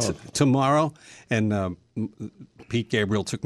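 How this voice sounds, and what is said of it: Usual voice. Nothing is said of it.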